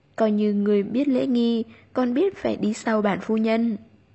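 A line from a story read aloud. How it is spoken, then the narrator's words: Soft smiling, barely audible. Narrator (Vietnamese): Tu Nhược Nam mỉm cười, nhẹ nhàng nói, đủ để hai người nghe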